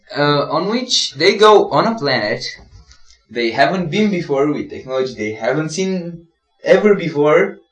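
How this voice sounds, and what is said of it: Romanian accent. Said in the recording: “You gotta get a less Romanian accent... I have a stupid Romanian accent”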